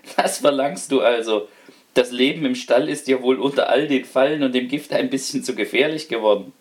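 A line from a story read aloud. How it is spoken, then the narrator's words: Laughing. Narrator (German): lachte der Hausherr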